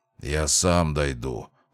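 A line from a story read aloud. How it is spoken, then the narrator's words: Gloomy grumble. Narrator (Russian): хмуро проворчал Мортимер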